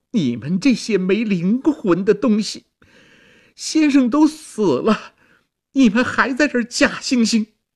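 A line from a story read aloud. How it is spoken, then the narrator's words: Wailing, scolding. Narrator (Chinese): 婵娟嚎啕痛哭，责骂道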